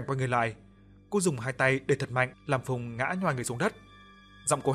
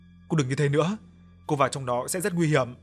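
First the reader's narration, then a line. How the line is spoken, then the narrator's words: Shouting. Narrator (Vietnamese): hét lên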